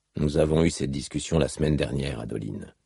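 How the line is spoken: Softly. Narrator (French): dit doucement Dalinar

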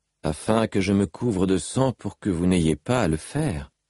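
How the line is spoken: Plain. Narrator (French): dit Seth

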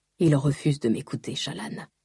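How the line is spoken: Murmured. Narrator (French): murmura-t-il

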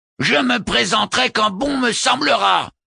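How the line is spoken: Enraged howling vicar. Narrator (French): hurla le vicaire les yeux hors de la tête

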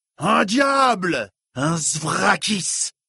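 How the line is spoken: Roared. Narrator (French): rugit Dilaf

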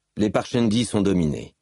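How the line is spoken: Plain. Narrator (French): dit Adoline

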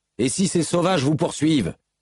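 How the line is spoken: Insistent question. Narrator (French): demanda Matal d'une voix insistante

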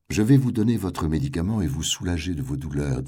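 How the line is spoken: Plain. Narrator (French): dit-elle

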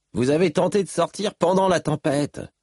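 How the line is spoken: Accusing. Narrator (French): dit Moash d'une voix accusatrice

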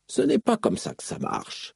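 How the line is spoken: Astonished murmur. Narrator (French): murmura-t-elle, yeux écarquillés

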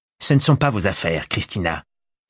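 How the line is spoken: Curt hammering words. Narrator (French): avait martelé Jean-Bénédicte d'un ton sec

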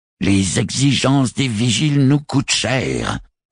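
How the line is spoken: Hoarse growl. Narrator (French): gronda-t-elle d'une voix rauque

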